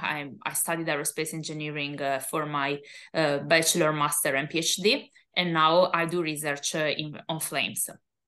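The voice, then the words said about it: Italian accent. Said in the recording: “As you might guess from my accent, I am Italian.”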